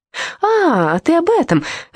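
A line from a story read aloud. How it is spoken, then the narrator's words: Exclaiming with feigned surprise. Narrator (Russian): воскликнул Турт, сделанным удивлением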